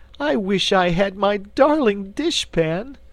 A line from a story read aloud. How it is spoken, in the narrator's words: wailed Cake